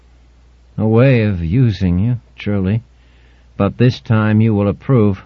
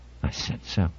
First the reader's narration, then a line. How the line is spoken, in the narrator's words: whispered Altmaier